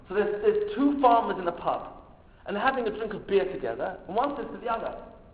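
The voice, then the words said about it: Solemn put-on English accent. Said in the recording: “I'm going to switch now to a solemn English accent.”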